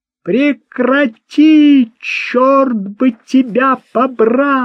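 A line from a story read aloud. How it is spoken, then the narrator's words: Shouted from upstairs window. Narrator (Russian): из окна второго этажа Мерлен прокричал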